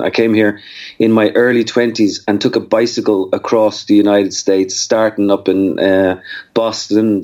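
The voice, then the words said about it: Irish Dublin accent. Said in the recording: “of Dublin, Ireland ... your accent ... they're going to assume that you don't have the accent of someone who's typically from the northern parts of the United States”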